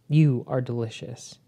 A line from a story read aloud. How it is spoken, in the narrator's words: Anaxos says, sighing deeply